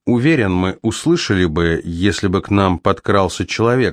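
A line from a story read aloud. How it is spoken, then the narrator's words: Plain. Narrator (Russian): сказал он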